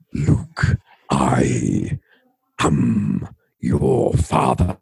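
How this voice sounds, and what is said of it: Deep Darth Vader impression. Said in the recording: “the deep, full-bodied voice of Darth Vader”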